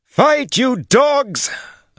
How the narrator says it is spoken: Annihila shrieked

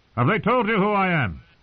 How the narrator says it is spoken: Sir Gregor grunted through his breaths

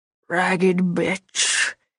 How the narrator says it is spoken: he hissed

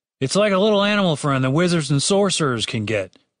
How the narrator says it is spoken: said Dave

